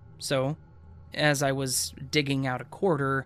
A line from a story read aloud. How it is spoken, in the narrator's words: my brother asked me nervously